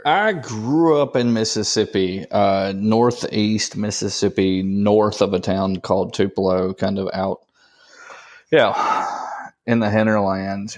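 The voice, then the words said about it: Prominent Southern American accent. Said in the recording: “your voice is quite prominent, the accent ... picked up a little bit of that accent”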